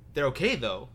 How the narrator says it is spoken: asked Ted quickly

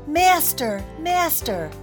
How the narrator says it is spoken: But the harp called out

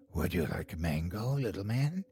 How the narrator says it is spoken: In a raspy voice, she asked

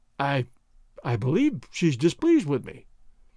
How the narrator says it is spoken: he said, in his timid voice

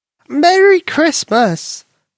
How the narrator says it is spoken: Granny exclaimed

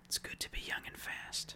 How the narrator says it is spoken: An older guy in his 40s at the time whispered in my ear

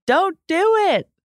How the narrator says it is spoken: It was like the table was screaming

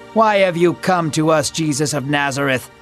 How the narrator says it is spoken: the man spat

